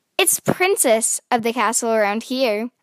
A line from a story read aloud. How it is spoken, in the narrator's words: I said